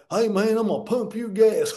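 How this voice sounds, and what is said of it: Mock Southern US accent. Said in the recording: “he's got a Southern accent. Well, why is he got a Southern accent?”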